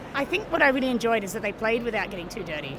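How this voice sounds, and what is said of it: Strong Australian accent. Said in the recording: “I'm Australian, obviously. I've got quite an Australian accent.”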